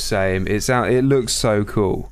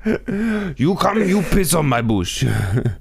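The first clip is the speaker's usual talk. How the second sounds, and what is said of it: Put-on Russian-sounding accent. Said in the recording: “sounded a bit Russian.”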